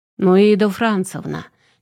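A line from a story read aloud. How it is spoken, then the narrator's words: Displeased droning through door. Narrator (Russian): Недовольным тоном гудел в закрытую дверь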